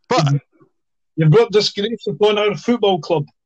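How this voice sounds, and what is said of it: Non-posh Edinburgh accent. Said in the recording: “he said in a very Edinburgh non posh accent”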